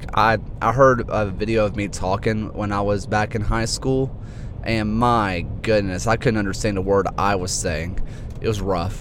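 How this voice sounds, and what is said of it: Thick Alabama Southern accent. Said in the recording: “I sound like every other hick that lives here... my accent is a little bit better than it used to be... it was thicker than a bowl of oatmeal”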